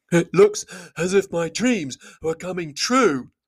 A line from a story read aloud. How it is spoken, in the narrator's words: gasped Bomber, puffing up behind